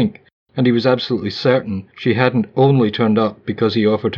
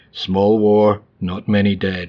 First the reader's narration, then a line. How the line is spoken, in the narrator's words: he said